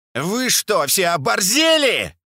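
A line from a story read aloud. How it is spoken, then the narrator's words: Hysterical shout. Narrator (Russian): истерично закричал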